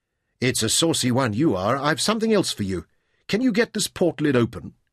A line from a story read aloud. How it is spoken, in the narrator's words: asked